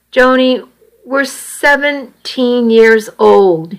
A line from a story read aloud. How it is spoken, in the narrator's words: he said miserably